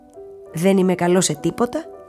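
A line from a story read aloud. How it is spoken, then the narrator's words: Plain. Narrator (Greek): έλεγε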